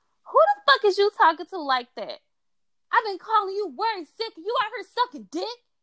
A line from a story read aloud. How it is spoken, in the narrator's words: AJ screamed